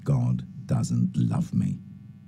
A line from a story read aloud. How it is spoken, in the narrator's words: whispering